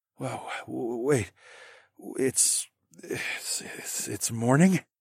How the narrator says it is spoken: slurred

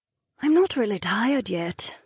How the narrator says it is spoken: Naomi murmured to Aliona

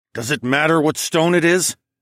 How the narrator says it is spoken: asked through gritted teeth

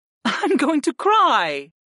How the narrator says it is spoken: Arwen laughed lightly

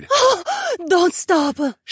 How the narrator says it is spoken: She gasped in desperation

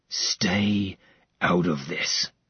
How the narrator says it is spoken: Max growled

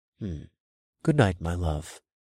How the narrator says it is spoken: murmured

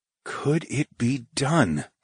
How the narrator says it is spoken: I whispered

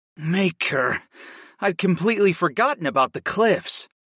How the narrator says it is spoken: sighed

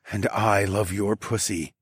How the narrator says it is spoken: I murmured

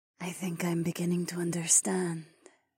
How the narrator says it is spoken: Zoe started to whisper

